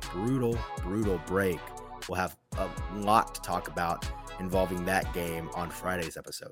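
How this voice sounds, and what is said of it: Rough, grating voice. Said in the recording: “I apologize for my voice today. Hopefully it wasn't too grating on your ears.”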